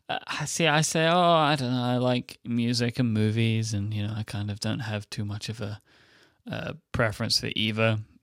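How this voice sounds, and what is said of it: Speaks with a noticeable accent. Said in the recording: “I really love your accent.”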